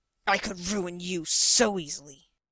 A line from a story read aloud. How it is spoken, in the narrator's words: Wilkes rasped